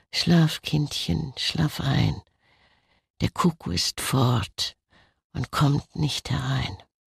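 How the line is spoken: Soft lullaby singing. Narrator (German): Torito sang leise dazu

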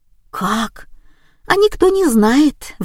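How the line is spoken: Sighing. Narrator (Russian): вздохнула Валя

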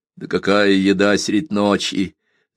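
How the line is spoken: Laughing. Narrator (Russian): засмеялся Донька

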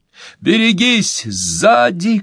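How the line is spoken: Shouting. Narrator (Russian): крикнул Пол

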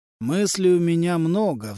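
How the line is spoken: Sighing. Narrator (Russian): вздохнул Адама Моро

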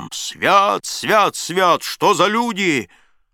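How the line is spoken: Chilling laughter, father. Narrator (Russian): Захохотал отец так, что мороз подрал по коже

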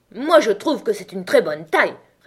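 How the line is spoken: Furious retort. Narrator (French): répliqua la chenille d'un ton furieux

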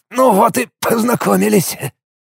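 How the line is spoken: Hoarse wheeze. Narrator (Russian): просипел Алекс

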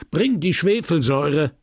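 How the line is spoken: Pharmacist shouting. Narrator (German): schrie der Apotheker

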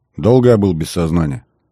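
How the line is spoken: Plain. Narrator (Russian): Ответил мне Кордо

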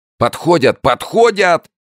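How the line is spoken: Crowd yelling. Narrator (Russian): заорали из нижней толпы

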